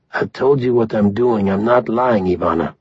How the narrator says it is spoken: in a steady voice, said

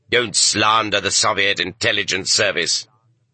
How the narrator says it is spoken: the presiding judge barked back

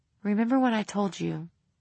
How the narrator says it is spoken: he said, his voice as soft as she had ever heard it

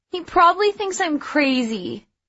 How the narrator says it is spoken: Jen moaned

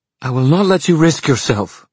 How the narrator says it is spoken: she cried

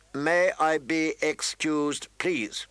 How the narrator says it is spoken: she recited stiffly

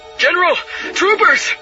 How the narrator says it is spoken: the watchman shouted

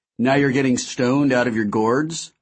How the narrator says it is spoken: I said

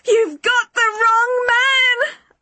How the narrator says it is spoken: I screamed at him again

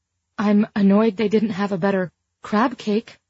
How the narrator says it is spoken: gasped

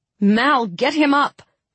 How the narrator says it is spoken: I shouted

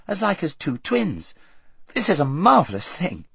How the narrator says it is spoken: exclaimed Queen Lucy

